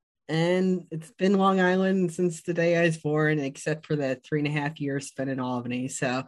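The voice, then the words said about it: Strong Long Island accent. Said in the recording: “I'm out on Long Island, as I'll play up the accent a bit as we're doing strong accents”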